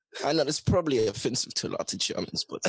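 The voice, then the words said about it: Put-on German accent, breathy. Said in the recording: “German is actually one of my favorite accents to do because I just pretend like I'm a little Nazi guy from World War II and I talk like this. ... when you did the breathy part,”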